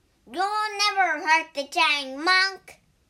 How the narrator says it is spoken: shouted the pig

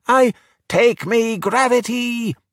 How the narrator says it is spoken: Alberto shouted

